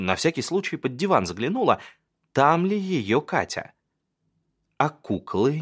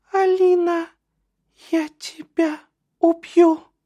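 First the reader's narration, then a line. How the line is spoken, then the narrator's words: Thin little voice. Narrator (Russian): говорит тоненьким голосом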